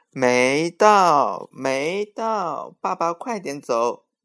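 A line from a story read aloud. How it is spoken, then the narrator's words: Loud, happy. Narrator (Chinese): 欢欢乐了，大声说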